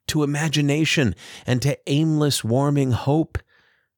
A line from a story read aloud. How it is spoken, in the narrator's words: Liza pleaded